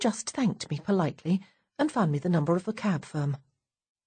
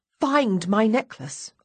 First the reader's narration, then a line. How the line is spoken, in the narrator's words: exclaim in exasperation